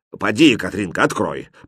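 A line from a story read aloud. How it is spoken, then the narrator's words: Grumble. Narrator (Russian): проворчал повар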